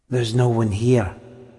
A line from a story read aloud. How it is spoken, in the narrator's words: whispered Tom